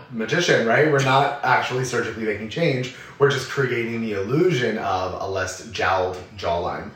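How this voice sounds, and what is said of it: Worn-out voice after partying. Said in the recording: “my party girl voice ... I'm recovering now.”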